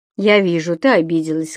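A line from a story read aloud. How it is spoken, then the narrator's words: Plain. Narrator (Russian): сказал брат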